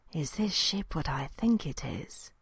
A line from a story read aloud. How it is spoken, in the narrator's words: breathed